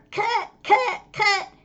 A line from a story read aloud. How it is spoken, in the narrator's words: Ellen yelled